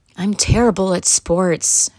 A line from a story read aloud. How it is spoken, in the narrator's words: sighed Albert